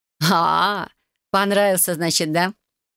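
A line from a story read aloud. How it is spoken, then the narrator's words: Mocking chuckle. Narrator (Russian): усмехнулась фея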